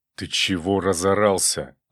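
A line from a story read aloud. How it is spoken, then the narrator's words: Angry hiss in ear. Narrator (Russian): зло прошипел он мне в ухо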